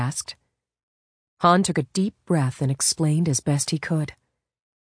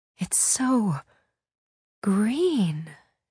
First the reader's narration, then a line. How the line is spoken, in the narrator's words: she breathed